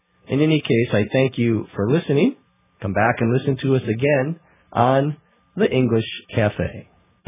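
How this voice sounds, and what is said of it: Sick, slightly weird-sounding voice. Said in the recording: “I have a cold today, so my voice sounds a little weird.”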